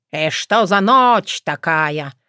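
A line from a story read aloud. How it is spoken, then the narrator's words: Grumbling. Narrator (Russian): проворчала я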